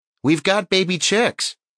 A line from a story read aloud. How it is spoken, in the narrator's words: Little Bit shouting